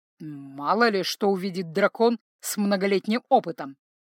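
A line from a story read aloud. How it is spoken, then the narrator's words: Grumbled. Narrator (Russian): проворчал Таринель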